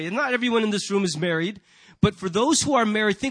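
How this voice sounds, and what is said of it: Usual voice. Nothing is said of it.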